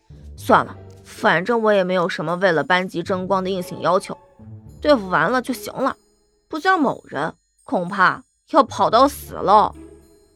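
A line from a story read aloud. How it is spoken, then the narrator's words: Grumbling mutter. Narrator (Chinese): 杜涵嘟囔道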